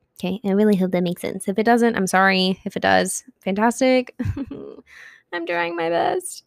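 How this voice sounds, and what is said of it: Scratchy, hoarse voice. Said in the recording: “my voice is just getting scratchier and scratchier by the minute”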